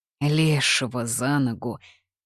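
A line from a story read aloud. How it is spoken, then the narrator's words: Sighing. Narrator (Russian): Вукодлак вздохнул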